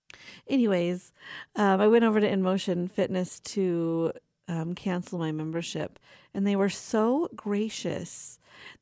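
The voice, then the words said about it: Young-sounding but tired voice. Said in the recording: “I have a young voice ... can you hear it in my voice? I'm tired.”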